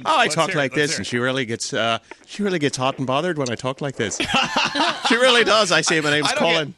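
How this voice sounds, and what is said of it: Fake Irish accent. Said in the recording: “I use a fake Irish accent.”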